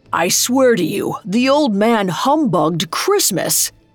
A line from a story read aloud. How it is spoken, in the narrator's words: He exclaimed